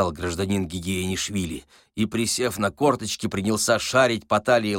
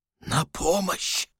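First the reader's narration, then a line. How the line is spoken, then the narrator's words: Whisper. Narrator (Russian): шепотом произнес Васисуалий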